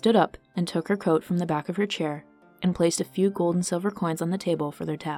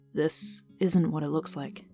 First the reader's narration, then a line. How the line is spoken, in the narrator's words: Vivin said quietly